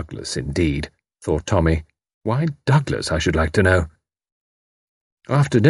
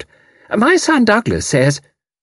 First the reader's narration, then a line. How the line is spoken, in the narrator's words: Tuppence's voice, high-pitched and slightly fatuous, piped out